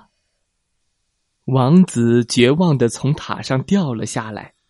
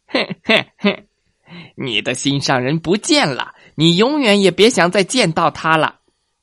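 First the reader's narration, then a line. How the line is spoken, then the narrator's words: Witch's sinister laugh. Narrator (Chinese): 巫婆狞笑着说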